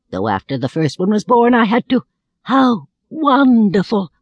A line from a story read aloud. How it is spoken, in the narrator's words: I cried